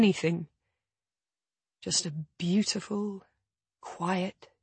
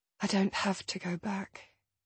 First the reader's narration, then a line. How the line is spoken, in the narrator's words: I murmur